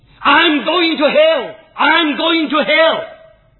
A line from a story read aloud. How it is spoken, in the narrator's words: he shouted